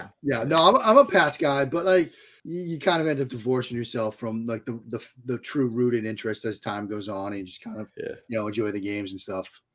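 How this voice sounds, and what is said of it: Strong Boston accent. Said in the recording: “the flagrant Boston accent? ... this guy sounds from like he's from Boston.”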